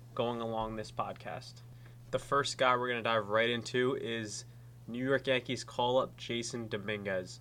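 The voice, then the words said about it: Stuffy, congested voice. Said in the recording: “hear it in my voice, but I'm getting over a bit of a cold infection deal ... sorry in advance if I sound a little stuffy”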